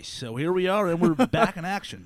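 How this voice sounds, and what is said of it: Announcer-style radio voice. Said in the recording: “you're going to hear the radio voice ... If he gets to do his voice”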